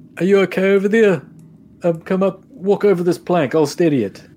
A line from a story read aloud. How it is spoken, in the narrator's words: Uh, I'm just going to yell out